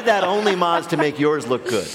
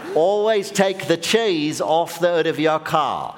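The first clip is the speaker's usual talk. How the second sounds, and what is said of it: Poor put-on Australian accent. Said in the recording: “in an authentic Australian accent ... That was terrible. ... That was horrible.”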